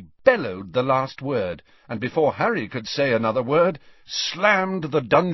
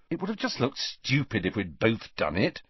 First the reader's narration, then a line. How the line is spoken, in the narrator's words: said Harry irritably